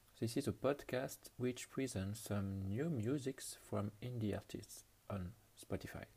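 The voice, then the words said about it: French accent in English. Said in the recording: “bad English accent. I'm French”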